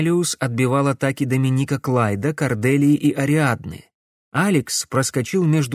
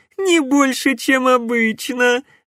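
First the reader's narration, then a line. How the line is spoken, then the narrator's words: Laughing. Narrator (Russian): рассмеялась Селина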